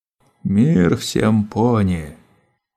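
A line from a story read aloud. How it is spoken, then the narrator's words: Deep hoarse voice. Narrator (Russian): произнес глубоким хриплым голосом Гримснаут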